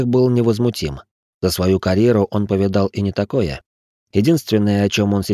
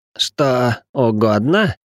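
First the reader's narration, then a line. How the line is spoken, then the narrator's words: Wheezing after spitting. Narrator (Russian): просипел Ричард, отплевавшись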